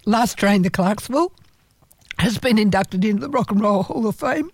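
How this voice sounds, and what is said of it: Strained, failing voice. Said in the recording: “I'm losing my voice now.”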